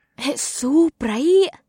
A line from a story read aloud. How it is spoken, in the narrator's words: she whispered in awe